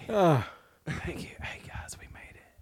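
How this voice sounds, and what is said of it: Whispering. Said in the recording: “do the rest of the podcast in whisper? ... This sounds like we're in a secret”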